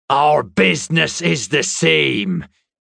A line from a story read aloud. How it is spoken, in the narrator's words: Sharon said so loudly